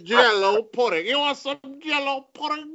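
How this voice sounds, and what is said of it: Imitates another person's voice. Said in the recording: “that's the greatest Cosby impersonation.”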